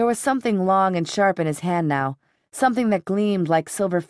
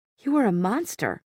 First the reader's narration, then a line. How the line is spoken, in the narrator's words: she whispered